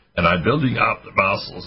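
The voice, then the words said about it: Imitates another person's voice. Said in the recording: “as I say, with Arnold Schwarzenegger accent.”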